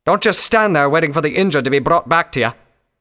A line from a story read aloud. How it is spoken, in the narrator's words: Redbrand barked